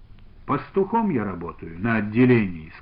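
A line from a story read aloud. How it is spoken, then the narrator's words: Plain. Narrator (Russian): сказал он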